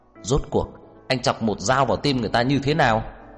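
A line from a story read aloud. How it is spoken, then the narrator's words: Angry agitated question. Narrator (Vietnamese): Trang Hạo Nhiên tức giận, bất đắc dĩ kích động hỏi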